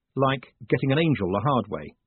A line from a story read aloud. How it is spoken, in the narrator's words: said Moist